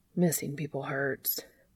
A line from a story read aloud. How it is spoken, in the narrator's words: the dandelion murmured